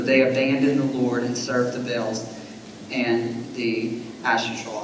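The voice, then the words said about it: Alabama Southern American accent. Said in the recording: “my Alabama accent”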